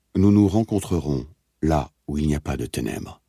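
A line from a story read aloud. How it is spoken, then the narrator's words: Plain. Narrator (French): avait dit O'Brien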